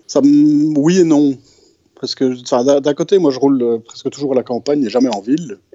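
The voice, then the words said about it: Strong Belgian French accent. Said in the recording (French): “tu as un euh, fort accent belge”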